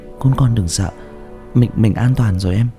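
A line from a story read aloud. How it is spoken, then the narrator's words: Soft gentle voice. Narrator (Vietnamese): Uyên, giọng nhỏ nhẹ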